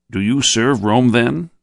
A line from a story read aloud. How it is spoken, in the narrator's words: he asked sharply